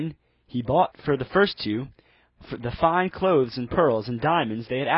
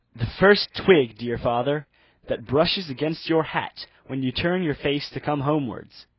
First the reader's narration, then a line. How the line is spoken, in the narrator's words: said she